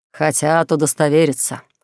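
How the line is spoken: Snorting. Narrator (Russian): хмыкнул старшина сопровождающих Элли воинов

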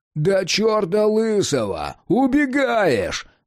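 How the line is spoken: Yelled. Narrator (Russian): заорал Джек

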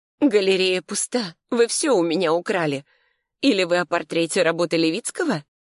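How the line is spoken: Hoarse cawing laugh. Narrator (Russian): Семен хрипло то ли рассмеялся, то ли закаркал

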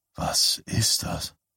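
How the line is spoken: Said quietly. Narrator (German): sagte Bannerman leise

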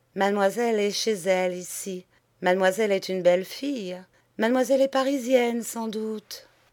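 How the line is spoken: Flat toneless voice. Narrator (French): Elle dit d'une voix blanche

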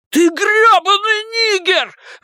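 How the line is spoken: Shriek. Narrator (Russian): взвизгнул Генри

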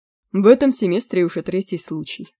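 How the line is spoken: Calm. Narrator (Russian): спокойно сказал Маккехт

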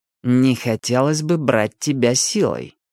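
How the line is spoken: Through gritted teeth. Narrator (Russian): процедил Милос

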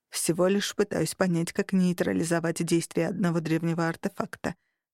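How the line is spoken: Hesitant quiet male voice. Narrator (Russian): помявшись тихо ответил мужчина

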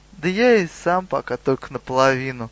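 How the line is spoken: Sad. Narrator (Russian): грустно сказал Гуга и Гагач

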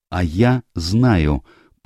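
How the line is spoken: Tense interrupting voice. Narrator (Russian): прервала его Эленор напряженным голосом

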